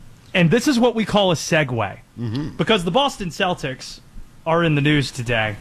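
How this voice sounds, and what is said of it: Usual voice. Nothing is said of it.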